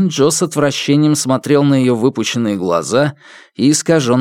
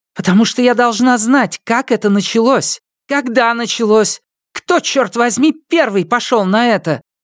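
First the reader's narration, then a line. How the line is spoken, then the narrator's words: Hysterical woman's scream. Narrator (Russian): истерично закричала женщина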